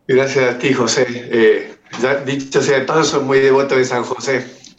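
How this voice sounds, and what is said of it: Noticeable foreign Spanish accent. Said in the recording (Spanish): “por tu acento la gente lo va a notar a la primera que hables”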